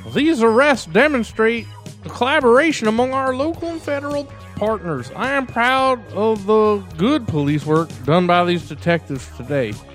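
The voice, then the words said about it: Hillbilly accent. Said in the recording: “hillbilly accent”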